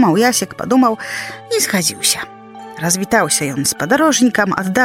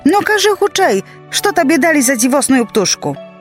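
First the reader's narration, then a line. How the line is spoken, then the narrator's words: Woman shouting. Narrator (Belarusian): жонка крычыць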